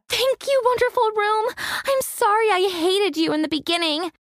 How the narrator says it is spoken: screamed with glee

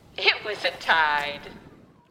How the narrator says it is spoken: laughed and said

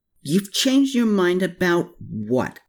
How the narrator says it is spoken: Klaus snarled from the other side of the gendarmerie closet door

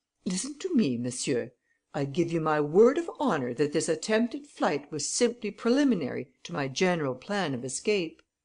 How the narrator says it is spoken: Arsène was annoyed, and firmly eyeing the judge, he said emphatically

